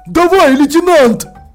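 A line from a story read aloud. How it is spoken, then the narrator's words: Shout. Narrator (Russian): Холтер крикнула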